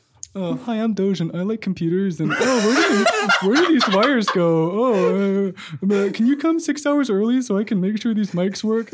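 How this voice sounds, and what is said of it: Impression of a friend. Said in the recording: “I'll do an impression of all three of you guys”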